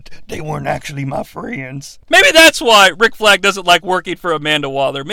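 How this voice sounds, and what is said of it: Usual voice. Nothing is said of it.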